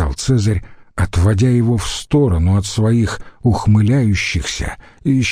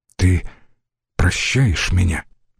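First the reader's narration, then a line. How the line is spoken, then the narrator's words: Whispered. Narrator (Russian): прошептал Брут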